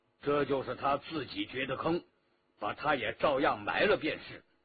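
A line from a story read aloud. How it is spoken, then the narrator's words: Cold. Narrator (Chinese): 石双英冷冷地说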